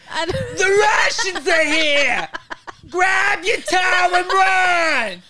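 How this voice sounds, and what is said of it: Put-on Italian Bronx woman voice. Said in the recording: “I sounded like an Italian Bronx woman from the 80s”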